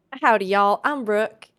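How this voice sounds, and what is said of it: Attempted Southern American accent. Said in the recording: “I can't do as good of a Southern accent ... As either of these other two, but I'm going to try my best.”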